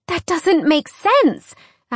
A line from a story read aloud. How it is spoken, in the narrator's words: Alex cried